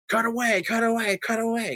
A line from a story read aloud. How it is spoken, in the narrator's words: starts screaming